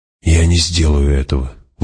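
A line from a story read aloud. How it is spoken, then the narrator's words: Breathed out. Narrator (Russian): выдохнул он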